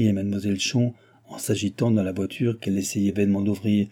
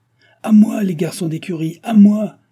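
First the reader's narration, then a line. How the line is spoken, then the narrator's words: Shouted. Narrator (French): cria l'hôtelier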